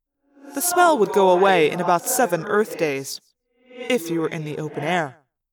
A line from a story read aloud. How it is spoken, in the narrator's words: Axe said calmly